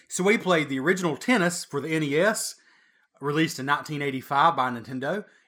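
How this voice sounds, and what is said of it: Hoarse voice. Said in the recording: “I'm hoarse from that skit. ... And from the yelling”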